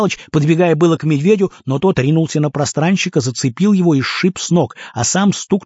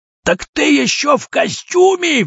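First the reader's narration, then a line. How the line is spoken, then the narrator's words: Roaring. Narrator (Russian): взревел кожаный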